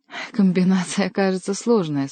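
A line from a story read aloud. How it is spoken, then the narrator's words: Laughing question. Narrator (Russian): спросил засмеявшийся Рилье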